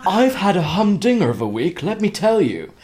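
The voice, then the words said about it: Put-on posh English accent. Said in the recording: “So shall I try and do this in a posh accent?”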